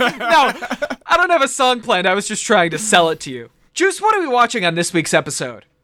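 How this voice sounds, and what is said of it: Usual voice. Nothing is said of it.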